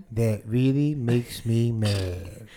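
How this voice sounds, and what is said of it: Droopy Dog impression. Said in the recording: “let me hear your Droopy Dog again... It's pretty good.”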